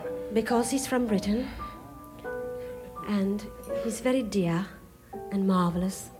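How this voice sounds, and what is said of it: Poor put-on British accent. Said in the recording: “I introduce him this way with a British accent ... that's terrible”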